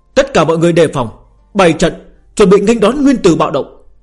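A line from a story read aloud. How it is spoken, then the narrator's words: Raised voice. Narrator (Vietnamese): Tư bà cao giọng nói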